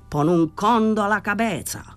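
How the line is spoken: Furious shout. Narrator (Italian): Danny era furibondo, gridò

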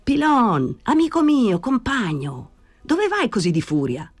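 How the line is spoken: Shouting. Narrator (Italian): gridò Danny

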